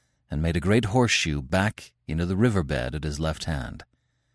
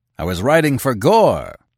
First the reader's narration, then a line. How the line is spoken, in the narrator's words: he roared